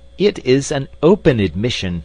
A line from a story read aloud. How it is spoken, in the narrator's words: he cried